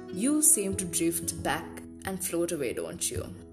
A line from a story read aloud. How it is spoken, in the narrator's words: said Chester